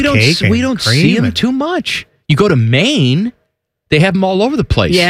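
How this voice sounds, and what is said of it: Usual voice. Nothing is said of it.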